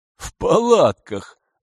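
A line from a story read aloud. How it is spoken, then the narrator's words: Laughing. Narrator (Russian): засмеялся народный заступник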